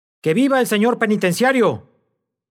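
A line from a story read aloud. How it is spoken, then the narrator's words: Cheering shout. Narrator (Spanish): gritó, poniéndose en pie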